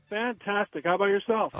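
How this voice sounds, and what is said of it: Happy, upbeat voice. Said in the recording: “do you sound so happy?”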